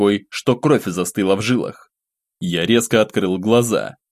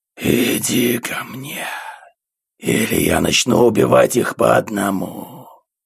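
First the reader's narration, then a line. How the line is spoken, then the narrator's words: Creature hissing. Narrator (Russian): прошипело существо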